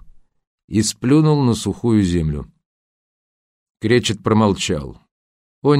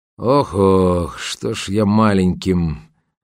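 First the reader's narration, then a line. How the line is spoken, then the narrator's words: Grumbling, cut off. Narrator (Russian): проворчал Кречет, но не закончил свое любимое присловие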